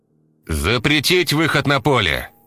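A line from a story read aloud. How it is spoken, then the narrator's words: Loud command. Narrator (Russian): громко приказал Корнеев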